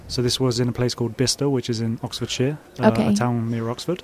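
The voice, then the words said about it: Very posh English accent. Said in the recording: “super posh accent”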